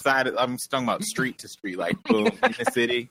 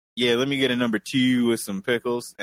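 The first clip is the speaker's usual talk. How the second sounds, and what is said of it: Imitated Baltimore city accent. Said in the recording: “that accent ... The second you set foot within the city limits of Baltimore”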